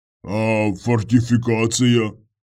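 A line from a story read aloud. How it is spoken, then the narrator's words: Deep bass voice. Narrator (Russian): пробасил он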